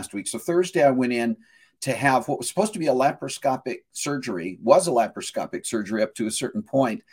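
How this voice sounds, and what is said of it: Hoarse voice. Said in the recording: “I'm sounding a little bit hoarse ... the hoarseness right now that I've got is just left over from the fact that I had a tube down my throat”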